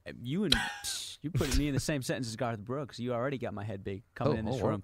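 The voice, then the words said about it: Fake Southern US accent. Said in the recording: “There's the fake accent. ... that good Southern accent coming from Connecticut.”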